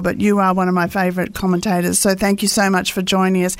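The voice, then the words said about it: Australian accent. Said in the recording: “I love your accent as well, and that's definitely Australian.”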